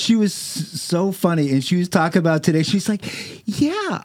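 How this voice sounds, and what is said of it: Usual voice. Nothing is said of it.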